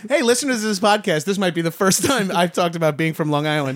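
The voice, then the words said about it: Long Island accent. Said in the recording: “I'm like ESL because of my accent and how high I am right now. ... Because you're from Long Island?”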